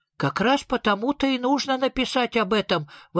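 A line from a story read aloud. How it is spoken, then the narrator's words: Exclaiming. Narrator (Russian): воскликнул Сниф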